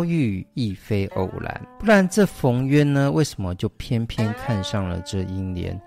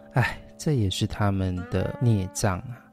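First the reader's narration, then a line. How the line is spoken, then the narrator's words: Sighing. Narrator (Chinese): 贾雨村就感叹道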